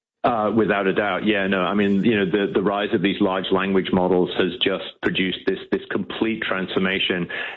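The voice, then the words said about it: Mixed British-influenced accent. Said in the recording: “he's got a really interesting accent. You have got an interesting accent ... I knew it was a mix.”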